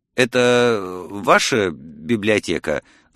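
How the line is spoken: Stammering mumble. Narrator (Russian): запинаясь, пробормотал я

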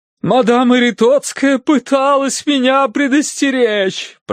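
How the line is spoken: Moaning woman. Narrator (Russian): простонала миссис Меринг

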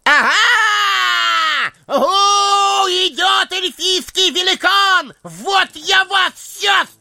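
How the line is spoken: Emboldened hobbit shouting. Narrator (Russian): закричал приободрившийся хоббит

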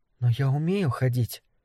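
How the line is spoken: Furious whisper. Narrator (Russian): яростно шепнула она

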